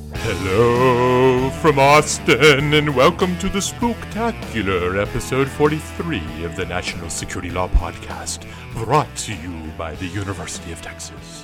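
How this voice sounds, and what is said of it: Weird spooky radio announcer voice. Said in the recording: “using a weird Halloween radio voice”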